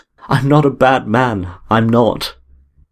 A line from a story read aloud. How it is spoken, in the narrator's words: He choked and cried out